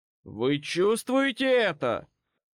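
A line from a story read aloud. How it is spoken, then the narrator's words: Shouted with overwhelming strain. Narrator (Russian): Прокричал он, ощущая, что грубая мощь клокочущей в нем силы вот-вот разорвет на части саму его плоть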